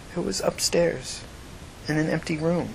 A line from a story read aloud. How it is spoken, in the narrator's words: she said quietly